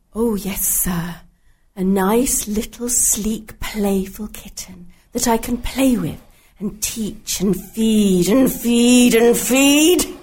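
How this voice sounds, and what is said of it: Theatrical character voice. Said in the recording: “In character voice, please.”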